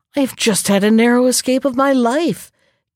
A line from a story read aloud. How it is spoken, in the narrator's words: gasped the jackal